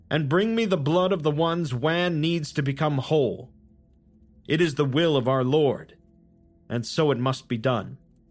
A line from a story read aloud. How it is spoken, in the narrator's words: Hedwig shouted